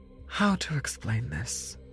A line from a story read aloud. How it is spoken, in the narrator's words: Agatha said with a sigh